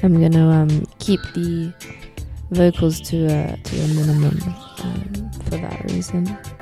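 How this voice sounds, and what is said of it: Voice sounds weird and off. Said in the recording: “excuse my voice, I sound kind of weird. I'm not 100% ... my voice has gone all funny”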